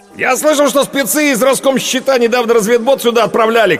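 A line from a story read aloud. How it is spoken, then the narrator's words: Shouting. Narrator (Russian): крикнул Ренат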